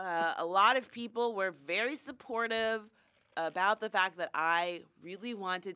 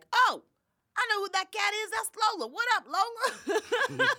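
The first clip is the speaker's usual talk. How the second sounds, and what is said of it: Imitates another person's voice. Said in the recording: “That's a really good impression of him. He kind of sounds like that.”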